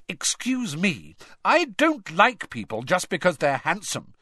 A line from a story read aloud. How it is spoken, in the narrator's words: said Hermione indignantly